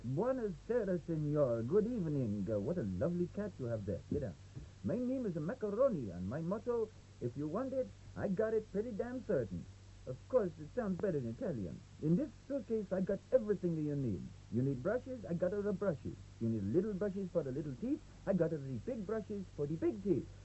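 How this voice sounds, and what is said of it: Thick Italian accent. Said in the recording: “a short, balding man of Italian extraction with a thick accent of the same origin”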